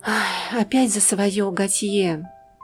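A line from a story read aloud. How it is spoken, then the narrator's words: Sigh. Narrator (Russian): вздохнула она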